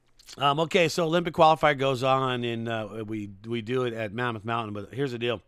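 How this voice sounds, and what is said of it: Very hoarse voice. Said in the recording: “my voice is super hoarse... you'd have a hoarse voice too”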